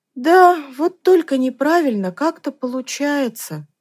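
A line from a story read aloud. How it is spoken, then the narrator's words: Sighing. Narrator (Russian): вздохнула Танечка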